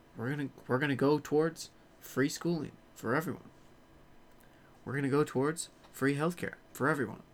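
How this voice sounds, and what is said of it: Barack Obama impression. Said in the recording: “I think I've exhausted my Obama impression for now.”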